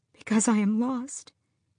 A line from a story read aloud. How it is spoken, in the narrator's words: she whispered onto the earth